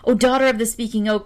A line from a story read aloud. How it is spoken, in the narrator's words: cried he, all out of breath